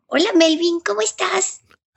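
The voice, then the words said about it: Little girl's voice. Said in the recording (Spanish): “como niña ... voz de niña”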